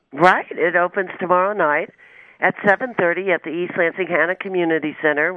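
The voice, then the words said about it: Voice with a slight cold. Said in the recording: “I have a little cold”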